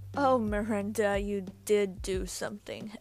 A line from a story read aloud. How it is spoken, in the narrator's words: Evelyn chuckled